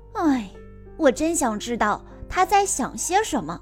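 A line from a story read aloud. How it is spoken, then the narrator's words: Muttering. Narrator (Chinese): 小诺嘟囔着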